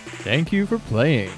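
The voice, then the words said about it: Deep announcer radio voice. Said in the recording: “Now that was a radio voice.”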